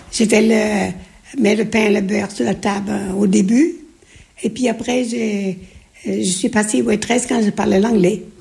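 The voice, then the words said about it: Slight Breton accent. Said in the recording (French): “Vous avez encore un peu d'accent? ... j'ai l'accent breton.”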